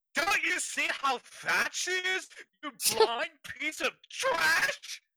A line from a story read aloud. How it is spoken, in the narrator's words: Amanda shrieked